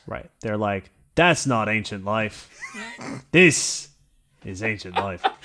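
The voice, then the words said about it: Put-on Australian accent. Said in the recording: “There's my good Australian accent.”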